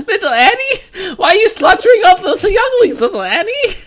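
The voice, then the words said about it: Jar Jar Binks cartoon character voice. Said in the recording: “Your Jar Jar voice is actually pretty good. ... It's really not bad.”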